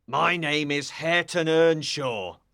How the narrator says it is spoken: growled the other

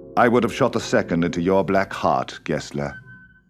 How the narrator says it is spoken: said William calmly

